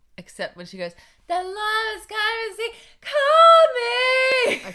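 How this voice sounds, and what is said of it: Imitates a child singing. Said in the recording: “That's my impression of Rafa singing Moana.”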